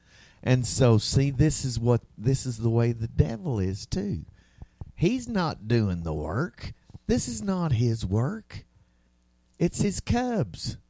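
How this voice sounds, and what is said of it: Southern US accent. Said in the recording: “I'm talking in this southern dialect”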